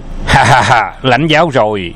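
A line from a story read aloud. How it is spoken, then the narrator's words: Loud laughter. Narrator (Vietnamese): Phục Khiên cười lớn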